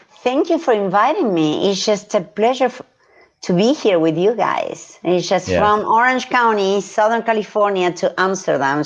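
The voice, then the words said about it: Southern California accent. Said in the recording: “we can tell by your accent. ... We can tell you're fresh out of Orange County.”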